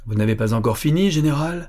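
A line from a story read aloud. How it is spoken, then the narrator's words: Sour shout. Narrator (French): cria aigrement Madame Gorelin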